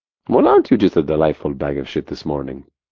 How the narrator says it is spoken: He chuckled

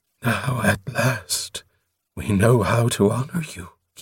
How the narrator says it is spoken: he breathed

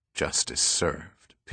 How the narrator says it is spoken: Pitt said quietly

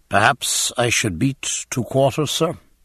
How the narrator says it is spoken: said James stiffly

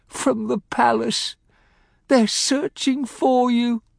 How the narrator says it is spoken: she lisped faintly

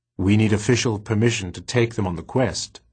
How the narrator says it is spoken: said Vicus

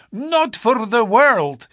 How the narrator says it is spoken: he cried

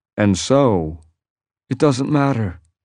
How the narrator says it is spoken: he said, still speaking in a conversational tone

